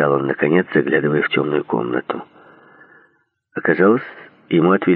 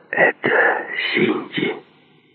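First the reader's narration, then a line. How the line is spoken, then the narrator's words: Whispered question. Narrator (Russian): шепотом спросил Джей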